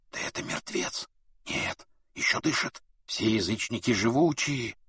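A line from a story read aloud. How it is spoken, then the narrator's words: Crowd whispering. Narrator (Russian): В толпе шептали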